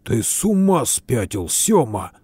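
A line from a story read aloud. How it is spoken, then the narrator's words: Hiss. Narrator (Russian): зашипел Винни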